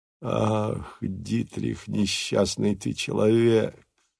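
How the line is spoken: Groaning. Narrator (Russian): застонал он

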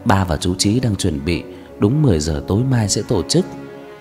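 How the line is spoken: Sighing old woman. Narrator (Vietnamese): Bà thở dài

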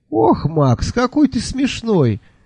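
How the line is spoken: Laughing heartily. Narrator (Russian): расхохоталась она

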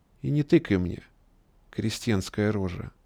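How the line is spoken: Quiet. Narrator (Russian): тихо добавил

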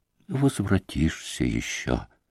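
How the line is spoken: Sorrowful, surprised whisper. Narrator (Russian): прошептал отец Паисий ... с горестным удивлением

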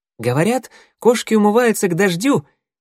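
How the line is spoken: Ironic exclamation. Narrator (Russian): не скрывая иронии, воскликнул Огонек

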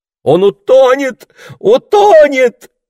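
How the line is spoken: Fearful scream. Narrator (Russian): закричала Марго, всегда ожидавшая самого худшего

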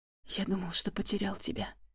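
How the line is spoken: Whisper. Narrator (Russian): прошептал он

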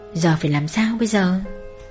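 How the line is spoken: Muttering to herself. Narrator (Vietnamese): mụ lẩm bẩm tự hỏi

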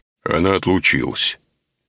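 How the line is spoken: Booming bass. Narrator (Russian): ответил он зычным басом

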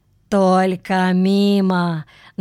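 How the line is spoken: Mocking. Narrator (Russian): насмешливо добавил кто-то

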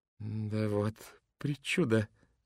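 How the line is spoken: Thoughtful young man. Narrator (Russian): задумчиво произнес молодой человек

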